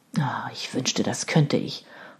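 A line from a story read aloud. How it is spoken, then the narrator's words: Sullen mutter. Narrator (German): murmelte Robert missmutig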